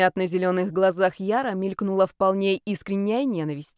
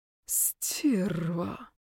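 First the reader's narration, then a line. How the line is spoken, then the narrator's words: Hissed, young man. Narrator (Russian): прошипел парень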